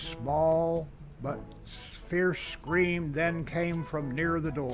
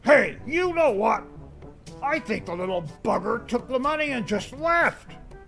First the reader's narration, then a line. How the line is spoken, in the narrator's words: the bear snapped, yelled